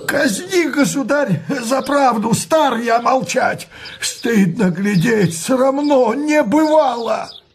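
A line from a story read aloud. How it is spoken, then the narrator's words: Bold trembling shout. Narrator (Russian): Иной боярин, наберясь смелости, крикнет дрожащим голосом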